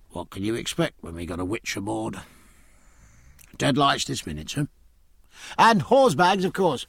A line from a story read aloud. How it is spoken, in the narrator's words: The carpenter pursed his lips, and pursed them again, muttering